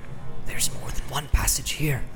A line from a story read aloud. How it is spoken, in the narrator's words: he whispered with an effort